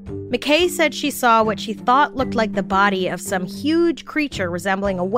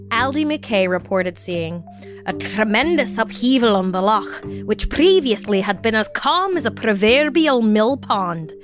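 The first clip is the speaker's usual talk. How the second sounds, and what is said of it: Put-on Scottish accent. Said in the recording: “That was my Scottish accent.”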